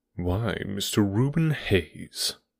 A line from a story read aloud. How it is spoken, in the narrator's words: said Holmes coolly